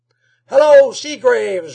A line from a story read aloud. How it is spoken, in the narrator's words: yelled Rob from the door